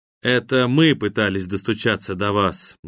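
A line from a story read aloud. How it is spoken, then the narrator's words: Sad reply. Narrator (Russian): грустно ответил Локи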